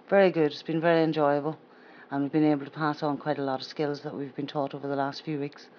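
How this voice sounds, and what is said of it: County Down Northern Irish accent. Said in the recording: “No, it would not. No, it's a County Down accent.”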